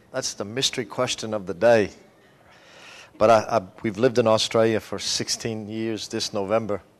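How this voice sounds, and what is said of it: Australian-sounding accent. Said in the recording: “Why does he sound like an Aussie?”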